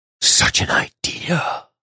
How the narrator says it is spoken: the Baron whispered

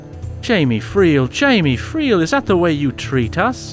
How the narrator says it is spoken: cried they

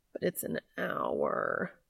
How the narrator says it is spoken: Cass whined

